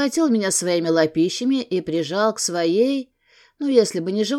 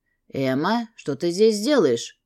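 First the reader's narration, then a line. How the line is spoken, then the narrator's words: Stern question. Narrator (Russian): строго спросил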